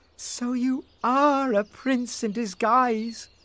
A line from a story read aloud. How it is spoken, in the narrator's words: cried Rose